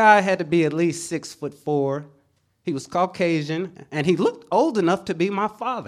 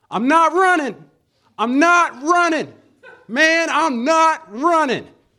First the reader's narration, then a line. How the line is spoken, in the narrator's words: he was yelling